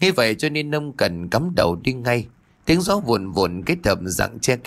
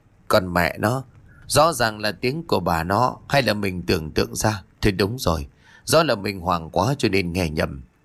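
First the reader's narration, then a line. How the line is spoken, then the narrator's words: Puzzled, dazed muttering. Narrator (Vietnamese): Ông Cần thắc mắc rồi thất thần lẩm bẩm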